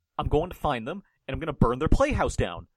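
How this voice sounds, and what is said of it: Imitates another person's voice. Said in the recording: “Did you hear my impression?”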